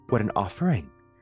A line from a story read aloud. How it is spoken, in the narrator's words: exclaimed the man in black